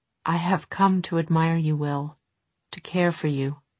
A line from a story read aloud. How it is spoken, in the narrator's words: she went on, her voice dropping